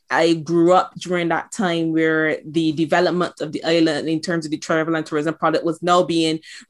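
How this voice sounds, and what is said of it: Barbadian accent. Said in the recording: “you'll start to hear my accent. So I'm actually from the beautiful island of Barbados.”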